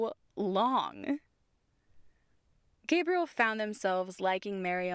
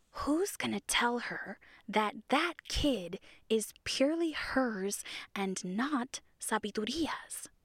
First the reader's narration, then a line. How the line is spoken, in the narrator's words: Siwakoat whispered